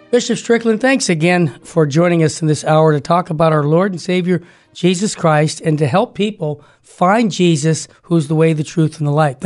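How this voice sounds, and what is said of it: Slightly congested voice from cold. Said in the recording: “I have a little bit of a cold”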